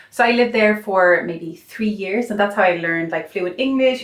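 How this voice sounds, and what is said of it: Slight Irish accent. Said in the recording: “you can hear a slight Irish accent ... It's a lovely accent.”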